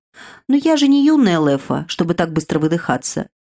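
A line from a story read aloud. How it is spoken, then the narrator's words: Snide remark. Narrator (Russian): ехидно заметил он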